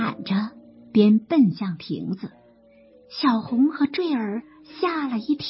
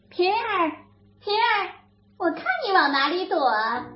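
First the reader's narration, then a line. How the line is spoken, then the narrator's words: Calling out. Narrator (Chinese): 宝钗口中还喊着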